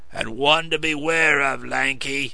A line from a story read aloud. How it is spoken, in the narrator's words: rumbled the coachman